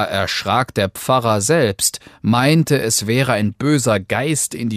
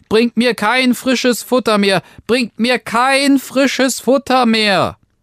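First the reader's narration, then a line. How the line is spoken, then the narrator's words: Calling out again. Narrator (German): rief Daumestick aufs Neue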